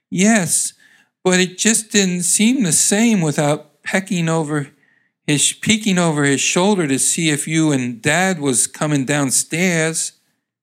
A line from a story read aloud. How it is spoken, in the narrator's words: She answered sadly